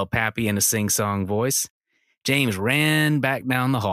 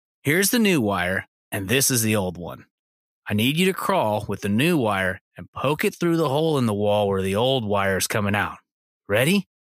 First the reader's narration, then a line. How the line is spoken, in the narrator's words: said Dad